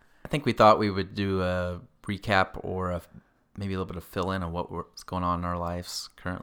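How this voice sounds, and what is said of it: Usual voice. Nothing is said of it.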